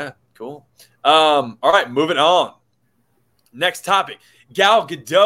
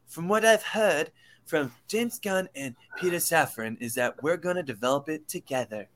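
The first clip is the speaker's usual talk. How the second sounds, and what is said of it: Imitates another person's voice. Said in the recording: “that is my impersonation of Gal Gadot”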